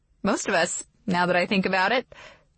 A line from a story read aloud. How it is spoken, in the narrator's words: she says with a laugh